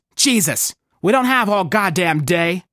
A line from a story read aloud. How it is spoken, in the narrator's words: barks